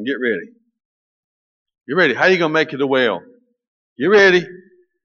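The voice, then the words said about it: American Southern accent. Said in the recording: “I'm talking southern now”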